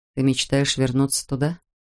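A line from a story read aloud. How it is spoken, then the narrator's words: Very quiet question. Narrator (Russian): спросил Джек так тихо, что его слова тут же растаяли на ветру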